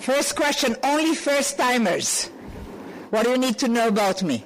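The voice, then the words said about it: Israeli-accented English. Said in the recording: “I'm an Israeli, you know that by my accent.”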